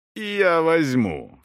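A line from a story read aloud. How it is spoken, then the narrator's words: Exclaiming, then laughing loudly. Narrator (Russian): вскричал Эсон и расхохотался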